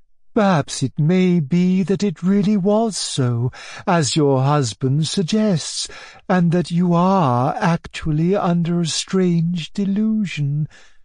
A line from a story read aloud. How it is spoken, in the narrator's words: she said in the sweetest honeyed tones